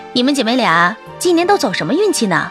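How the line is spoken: Smiling. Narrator (Chinese): 同学笑笑道

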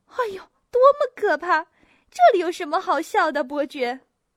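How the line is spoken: Laughing despite herself. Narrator (Chinese): 女士们也都情不自禁的笑了起来

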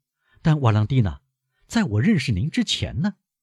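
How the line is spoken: Smiling. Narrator (Chinese): 莫雷尔微笑着说

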